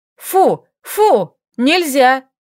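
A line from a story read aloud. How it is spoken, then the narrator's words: Shouting. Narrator (Russian): закричала Лилька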